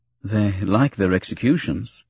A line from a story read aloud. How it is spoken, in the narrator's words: Obi-Wan said dryly